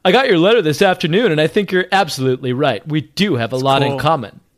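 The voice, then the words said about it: Cool-sounding character voice for Alan Gray. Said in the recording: “Alan Gray sounds cool when you do his voice.”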